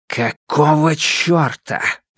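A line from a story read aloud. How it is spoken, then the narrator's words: Hissed. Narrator (Russian): прошипел он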